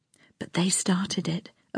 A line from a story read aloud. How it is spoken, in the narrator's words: a voice whispered